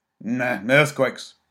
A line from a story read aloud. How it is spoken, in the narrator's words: snapped the old man